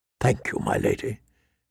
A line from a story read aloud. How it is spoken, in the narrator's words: he whispered